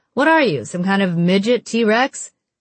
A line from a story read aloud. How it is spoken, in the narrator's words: Penny laughed